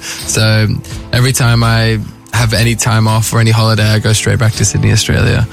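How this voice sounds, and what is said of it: Australian English accent. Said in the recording (French): “I feel most Australian. Like, you know, it's my accent”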